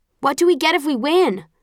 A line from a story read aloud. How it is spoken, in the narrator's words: someone shouts